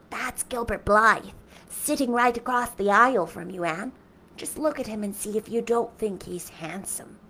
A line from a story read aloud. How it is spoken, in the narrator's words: Diane whispered to Anne